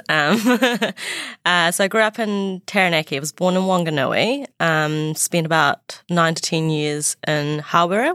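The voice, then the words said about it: New Zealand accent. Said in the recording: “I was born in New Zealand, so you can hear it from my accent”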